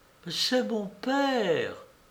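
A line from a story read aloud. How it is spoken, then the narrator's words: Melodramatic exclamation. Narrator (French): à bout d'éloquence, elle s'écrie, comme au 5e acte d'un drame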